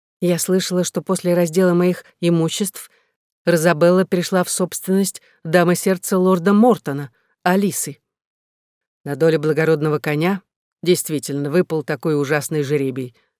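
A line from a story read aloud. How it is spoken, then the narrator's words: Plain. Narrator (Russian): сказал Дуглас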